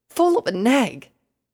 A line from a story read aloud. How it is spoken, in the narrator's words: Rainbow exclaimed